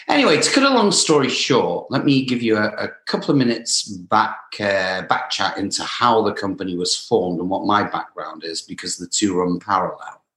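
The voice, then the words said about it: British English accent. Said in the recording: “I don't have a typical American accent. So came originally from England ... may have the British accent”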